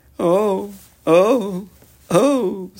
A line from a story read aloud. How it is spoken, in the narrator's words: sobbed Mr